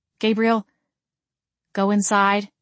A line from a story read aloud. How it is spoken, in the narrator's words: I said in a low, even tone